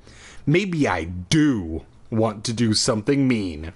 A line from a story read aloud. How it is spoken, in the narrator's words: I growled